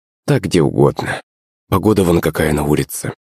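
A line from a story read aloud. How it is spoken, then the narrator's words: Sighing. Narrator (Russian): вздохнула Наталья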